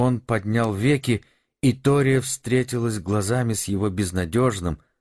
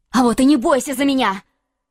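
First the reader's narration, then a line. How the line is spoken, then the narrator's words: Choked emotional outcry. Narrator (Russian): выкрикнула она, пытаясь справиться с непонятным чувством, вдруг сдавившим ей горло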